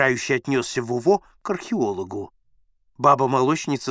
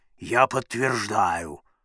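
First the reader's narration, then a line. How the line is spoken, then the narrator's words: Thick bass voice. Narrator (Russian): Акушерка Сашкина сказала густым, как карболка, басом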